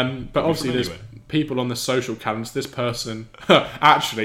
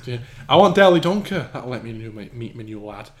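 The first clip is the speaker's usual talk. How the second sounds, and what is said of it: Put-on northern English accent. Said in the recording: “I went northern accent for that”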